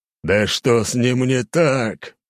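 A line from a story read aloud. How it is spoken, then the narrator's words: Growled. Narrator (Russian): прорычал император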